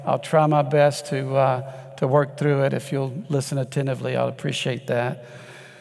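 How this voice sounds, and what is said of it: Weak, strained voice. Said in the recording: “my voice has never been strong, but I had a spinal fusion about 8 weeks ago ... it's not come back completely yet”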